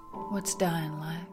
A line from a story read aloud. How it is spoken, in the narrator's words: I asked softly